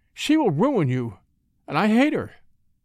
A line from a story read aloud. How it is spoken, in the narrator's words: she exclaimed